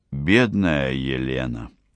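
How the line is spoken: Deep-sighing pastor. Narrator (Russian): Пастор с глубоким вздохом сказал

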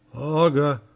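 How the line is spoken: Grumbling mutter. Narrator (Russian): Буркнул парень

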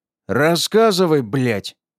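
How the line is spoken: Barking. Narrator (Russian): рявкнул

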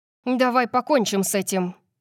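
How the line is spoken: Growling. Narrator (Russian): прорычала Тори

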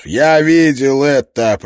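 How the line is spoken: Growled right in face. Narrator (Russian): прорычал Клин Кордору прямо в лицо

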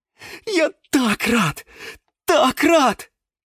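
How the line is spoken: Joyful exclamation. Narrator (Russian): воскликнул Гиацинт Василий

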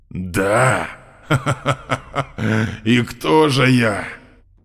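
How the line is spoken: Hissed in the face. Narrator (Russian): Он шипел в мое лицо

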